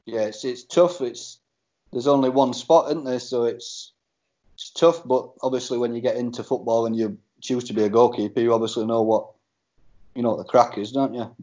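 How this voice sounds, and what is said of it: Barnsley Yorkshire English accent. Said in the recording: “you've definitely got a Barnsley accent. You're definitely from round our end.”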